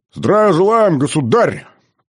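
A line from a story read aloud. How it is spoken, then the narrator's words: Barked in chorus, hundred voices. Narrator (Russian): Хором рявкнули все 100 глоток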